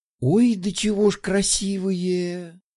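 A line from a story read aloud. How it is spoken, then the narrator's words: Admiring sigh. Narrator (Russian): Вздохнула Любава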